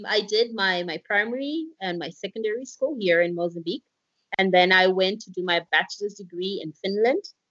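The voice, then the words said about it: Accent with almost an American twang. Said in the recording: “accent has got sort of almost an American twang.”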